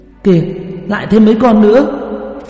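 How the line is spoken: Crying out. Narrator (Vietnamese): Qua Qua la lên một tiếng

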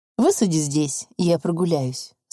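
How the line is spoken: Plain. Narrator (Russian): сказал он водителю

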